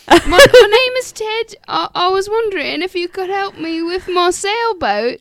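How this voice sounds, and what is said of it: Bad fake British accent. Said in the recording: “Why does he have a British accent? ... And it was probably just as bad as ours.”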